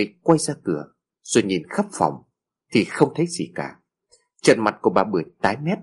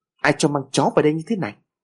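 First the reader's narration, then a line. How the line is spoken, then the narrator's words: Sudden loud shout. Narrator (Vietnamese): chợt bà ta quát lớn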